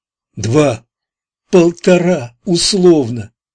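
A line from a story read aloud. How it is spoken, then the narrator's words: Joyful whisper, then cry. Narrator (Russian): Радостно шепнула она и скрикнула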